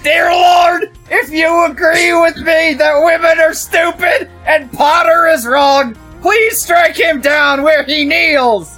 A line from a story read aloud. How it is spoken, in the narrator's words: he shouted